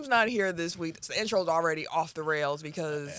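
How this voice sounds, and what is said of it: Usual voice. Nothing is said of it.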